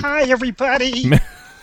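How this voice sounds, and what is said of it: Puppet character voice. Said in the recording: “Lamb Chop ... will do that voice all night long ... it's terrific”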